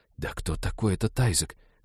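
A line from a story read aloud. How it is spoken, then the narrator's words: Whispering in ear. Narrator (Russian): зашептала Ивета на ухо Молли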